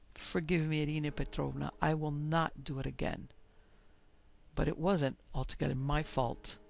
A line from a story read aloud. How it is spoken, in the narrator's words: She addressed her mistress in a subdued voice